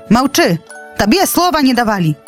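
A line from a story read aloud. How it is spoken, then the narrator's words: Shouting eagle. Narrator (Belarusian): крыкнуў арол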